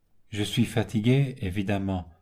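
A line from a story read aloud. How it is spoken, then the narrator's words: Vague, distracted tone. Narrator (French): fit Augustin d'un ton vague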